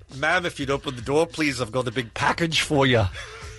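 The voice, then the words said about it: Put-on accent. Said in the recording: “Let me hear that in an accent.”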